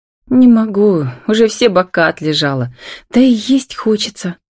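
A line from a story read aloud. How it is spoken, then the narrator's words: Sighing. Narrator (Russian): вздохнула она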